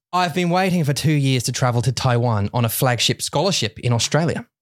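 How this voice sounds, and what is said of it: Harsh put-on Australian accent. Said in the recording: “like a really harsh kind of Australian ... some of them are softer than this ... I'm just doing the one from Home and Away”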